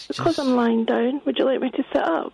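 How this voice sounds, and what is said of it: Babyish, needy voice. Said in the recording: “you're doing it in this kind of babyish voice ... to not do it in a babyish voice ... you're doing it in a babyish voice ... your voice has gone low”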